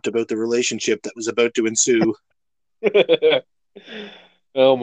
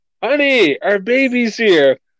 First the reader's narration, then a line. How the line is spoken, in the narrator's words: the father comes out and yells